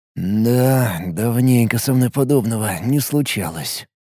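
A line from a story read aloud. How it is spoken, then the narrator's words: Muttering. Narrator (Russian): пробормотал он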